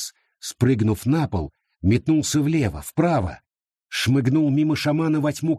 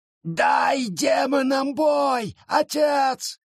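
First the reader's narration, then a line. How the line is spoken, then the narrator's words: Shouted, forest. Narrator (Russian): крикнул лес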